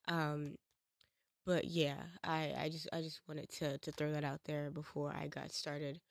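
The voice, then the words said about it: Rough, sick-sounding voice. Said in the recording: “I sound like fucking hot wet garbage ... I don't like to talk when I sound like this ... when I get sick”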